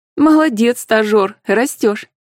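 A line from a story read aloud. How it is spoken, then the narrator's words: Laughing. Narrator (Russian): Рассмеялась Анфиса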